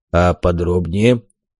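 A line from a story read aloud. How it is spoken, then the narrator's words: Calm inquiry. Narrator (Russian): Спокойно поинтересовался Дубальт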